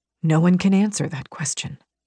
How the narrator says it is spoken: Rain murmured

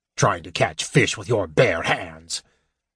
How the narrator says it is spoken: Flint grumbled in disgust

